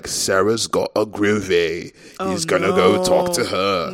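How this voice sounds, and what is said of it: Imitated British accent. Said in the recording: “There's this guy with a British accent.”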